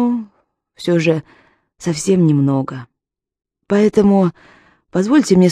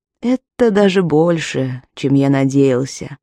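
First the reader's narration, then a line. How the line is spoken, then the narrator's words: Calm. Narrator (Russian): спокойно ответил он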